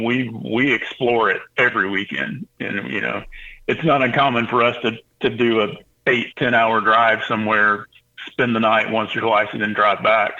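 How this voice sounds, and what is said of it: Utah accent. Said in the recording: “the funny accent ... it's definitely a Utah accent”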